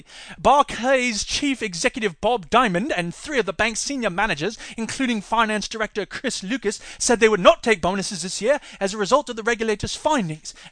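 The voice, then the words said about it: Inconsistent put-on British accent. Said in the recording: “he's going all over the place with this stupid freaking accent. Now it's London, now it's Edinburgh, now it's freaking Manchester. We can't tell what your stupid accent's supposed to be.”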